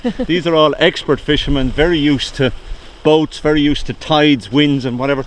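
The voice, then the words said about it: Irish Wexford accent. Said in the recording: “my accent as a Wexford accent”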